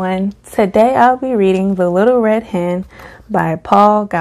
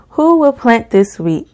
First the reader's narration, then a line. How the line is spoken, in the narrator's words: cried the little red hen